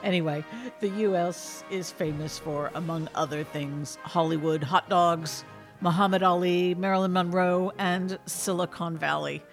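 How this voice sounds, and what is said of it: American accent. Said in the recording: “the land of my birth, the United States of America ... I do maintain my accent”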